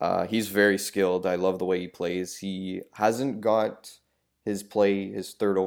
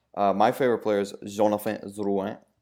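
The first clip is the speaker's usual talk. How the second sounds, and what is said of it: Put-on French accent. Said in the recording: “I said that in a French accent.”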